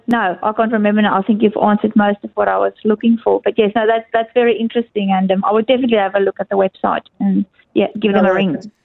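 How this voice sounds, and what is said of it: South African accent. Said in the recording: “You obviously have relocated to Australia here from South Africa originally. I'm hearing in your accent there.”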